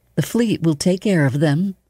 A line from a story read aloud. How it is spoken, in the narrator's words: Leia said soothingly